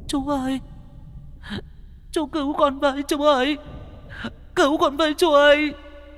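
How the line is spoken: Whimpering child. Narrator (Vietnamese): con bé Nhi mếu máo

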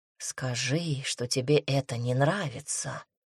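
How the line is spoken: Whisper in the ear. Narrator (Russian): шепнул демон, касаясь уха

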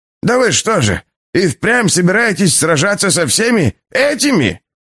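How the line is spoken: Shrill squeal. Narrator (Russian): взвизгнул Олег Олегович

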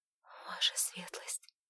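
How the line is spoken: Convulsive whisper. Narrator (Russian): судорожно зашептала Александра

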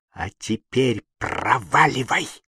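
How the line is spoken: Hissed. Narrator (Russian): прошипела

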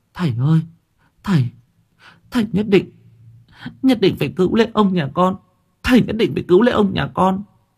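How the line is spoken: Tearful, whimpering cry. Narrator (Vietnamese): Bà nụ vẫn kêu mếu máo

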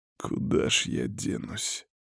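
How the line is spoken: Exhausted grumbling. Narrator (Russian): проворчал чувствуя адскую усталость

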